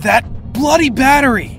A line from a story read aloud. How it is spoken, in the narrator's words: I yelled